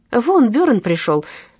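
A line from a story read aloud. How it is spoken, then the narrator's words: Loud. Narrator (Russian): громко сказала Туве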